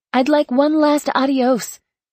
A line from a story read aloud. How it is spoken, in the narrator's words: she shouted